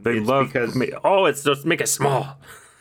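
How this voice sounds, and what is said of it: Attempted Iranian accent. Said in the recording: “your attempted Iranian accent”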